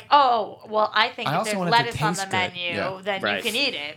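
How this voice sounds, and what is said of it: Imitates a picky vegan. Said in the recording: “my imitation of her... That's your imitation of just a generic”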